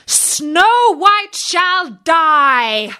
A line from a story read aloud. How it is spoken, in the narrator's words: she cried